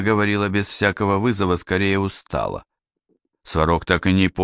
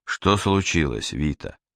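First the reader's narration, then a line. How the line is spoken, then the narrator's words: Quiet question. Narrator (Russian): тихо спросил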